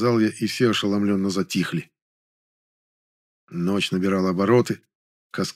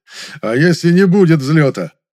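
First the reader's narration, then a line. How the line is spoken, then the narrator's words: Big bald man chuckling. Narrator (Russian): хохотнул здоровый лысый мужик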